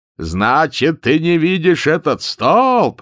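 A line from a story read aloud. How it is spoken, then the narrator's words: Shouting sergeant. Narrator (Russian): закричал старшина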